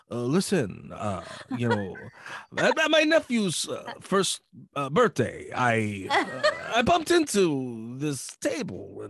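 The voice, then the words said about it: Imitates another person's voice. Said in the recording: “That was a really bad impression ... he's got such a, you know, specific voice”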